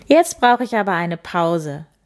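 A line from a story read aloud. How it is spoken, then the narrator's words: Woman laughing. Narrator (German): lachte sie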